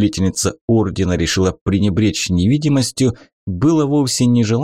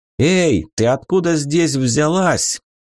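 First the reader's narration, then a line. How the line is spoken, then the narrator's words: Disbelieving guard's shout. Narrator (Russian): крикнул Вики, похоже, не поверивший своим глазам караульный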